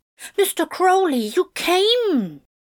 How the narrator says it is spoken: cried the Antichrist

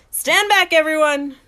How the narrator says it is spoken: yells

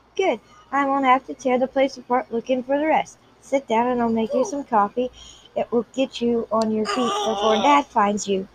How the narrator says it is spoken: she mumbled

